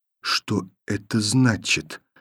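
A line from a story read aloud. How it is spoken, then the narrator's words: Quiet repetition. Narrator (Russian): повторила тихо Таня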